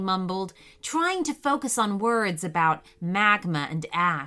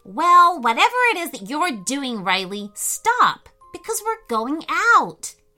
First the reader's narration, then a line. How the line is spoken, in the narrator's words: announced loudly